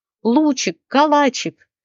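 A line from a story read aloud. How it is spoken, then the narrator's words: Yelling. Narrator (Russian): вопил Рослик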